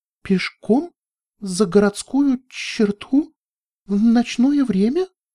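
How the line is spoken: Trembling, frightened voice. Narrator (Russian): дрожащим голосом проговорила Флетлайт

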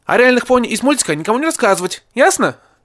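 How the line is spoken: Sharp raised voice. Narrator (Russian): сказал, прикрикнув

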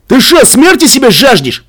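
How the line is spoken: Adult man shouting. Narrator (Russian): выкрикнул другой взрослый рейдер

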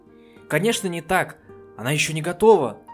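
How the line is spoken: Exclaiming. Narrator (Russian): воскликнула кобылка

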